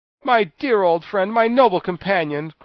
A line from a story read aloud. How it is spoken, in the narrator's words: cried the Tin Woodman joyfully